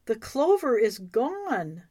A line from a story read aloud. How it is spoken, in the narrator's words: Suddenly Elva exclaimed